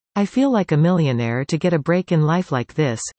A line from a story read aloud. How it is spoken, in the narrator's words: he said